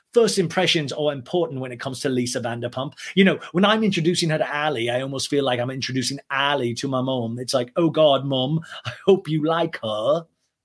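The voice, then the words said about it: Poor imitation of another person's accent. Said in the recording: “I'm not doing good on the DJ James Kennedy accent.”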